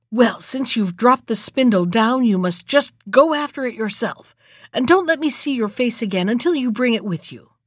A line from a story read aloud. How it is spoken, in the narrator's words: scolded her harshly and was so merciless in her anger that she said